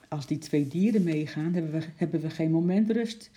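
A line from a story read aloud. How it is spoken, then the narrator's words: Plain. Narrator (Dutch): zei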